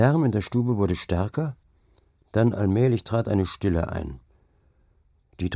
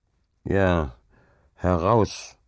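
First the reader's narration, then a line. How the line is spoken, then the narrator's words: Grumbling. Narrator (German): brummte Hauke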